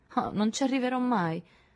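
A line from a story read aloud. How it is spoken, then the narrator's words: Desolate voice. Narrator (Italian): disse Josette con voce desolata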